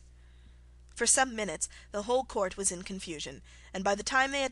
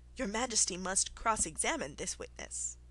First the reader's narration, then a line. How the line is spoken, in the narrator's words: the White Rabbit, who said, in a low voice